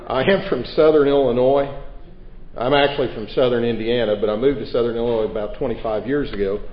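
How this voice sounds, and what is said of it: Rural Southern US accent. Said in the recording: “he has a voice suited more for public national public radio. You'll find that my voice is more suitable for Hee Haw.”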